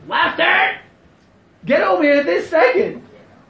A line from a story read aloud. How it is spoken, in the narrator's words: his mom was like screaming it